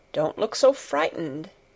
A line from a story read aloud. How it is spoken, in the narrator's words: said in a worried voice